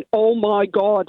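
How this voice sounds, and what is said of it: Thick Derry accent. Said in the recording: “in a really thick Derry accent”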